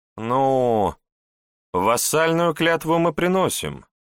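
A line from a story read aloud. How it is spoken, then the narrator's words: Uncertain reply. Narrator (Russian): неуверенно ответила шевалье Изабелла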